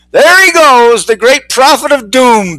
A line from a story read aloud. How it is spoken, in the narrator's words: Bixby yelled